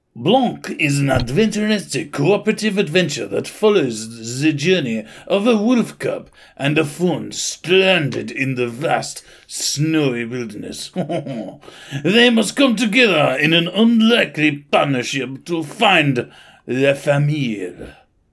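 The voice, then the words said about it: Put-on French accent drifting Russian. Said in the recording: “I should have done all this in a French accent ... you really went Russian as you like drifted through”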